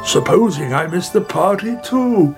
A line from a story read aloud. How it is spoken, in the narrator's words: He cried